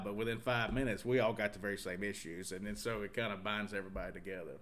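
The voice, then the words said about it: Southern American accent. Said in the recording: “this Southern accent”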